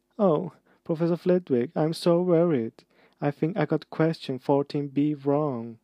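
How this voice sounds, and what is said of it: High-pitched mocking voice. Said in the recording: “He put in high voice.”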